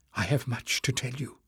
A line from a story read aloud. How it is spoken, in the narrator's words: she whispered